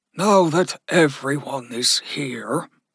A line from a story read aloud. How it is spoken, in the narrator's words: Stenson grunted